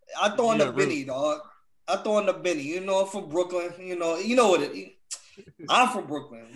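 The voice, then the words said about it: Bad put-on New York accent. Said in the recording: “that's a terrible New York accent ... that's terrible”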